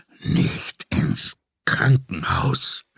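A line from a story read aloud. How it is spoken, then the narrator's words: Groaning. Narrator (German): stöhnte Grandesso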